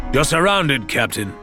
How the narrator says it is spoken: Ramsay roared

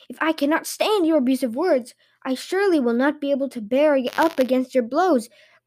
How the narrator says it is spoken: cried Stompe Pilt

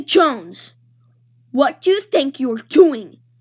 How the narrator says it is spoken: She growled

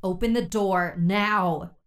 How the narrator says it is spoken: Priya shouted

